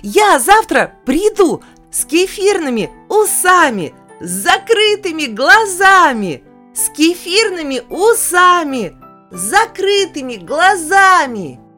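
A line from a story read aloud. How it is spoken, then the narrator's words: Shouting. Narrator (Russian): крикнул мне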